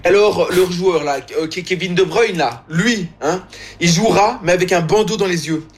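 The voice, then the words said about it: Imitated voice with Belgian accent. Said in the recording (French): “au niveau de la forme et de l'imitation, il y a encore du travail à faire ... le président américain avait un accent belge, disons”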